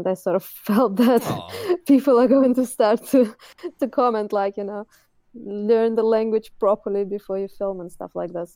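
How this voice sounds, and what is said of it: Non-native accent. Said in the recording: “I was actually really shy because of my accent.”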